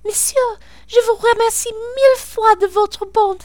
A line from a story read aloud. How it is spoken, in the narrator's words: she exclaiming